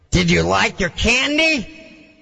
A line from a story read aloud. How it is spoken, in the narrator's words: He yelled